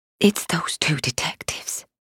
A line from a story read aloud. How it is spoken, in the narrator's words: she whispered